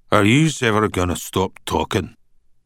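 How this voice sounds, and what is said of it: Thick Glaswegian accent. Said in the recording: “in a thick Glaswegian accent that Danny could barely translate”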